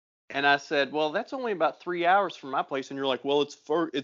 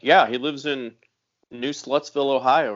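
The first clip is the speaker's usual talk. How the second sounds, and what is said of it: Imitates another person's voice. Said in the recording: “the absolute worst impression of me”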